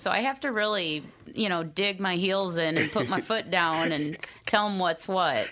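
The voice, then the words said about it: Minnesota accent. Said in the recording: “You got that Minnesota accent.”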